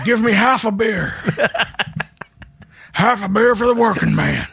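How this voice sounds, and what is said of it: Elderly man voice impression. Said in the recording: “a very good elderly Steve Austin impression ... that's what you will sound like”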